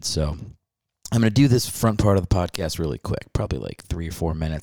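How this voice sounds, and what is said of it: Quiet, held-back voice. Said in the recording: “my voice sounds a little weird, it's because I'm I'm trying to not be too loud”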